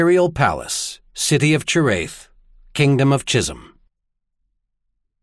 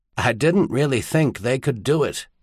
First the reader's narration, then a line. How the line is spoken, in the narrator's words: said quietly, the words barely audible, the voice that of the confessional